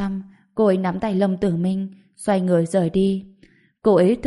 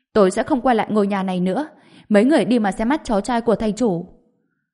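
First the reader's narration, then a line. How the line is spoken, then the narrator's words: Cold shout. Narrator (Vietnamese): Đào Tam Nương hét lên, lạnh lùng nói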